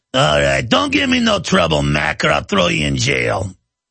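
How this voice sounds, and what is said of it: New York tough-guy accent. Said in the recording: “A thug in New York might talk like this.”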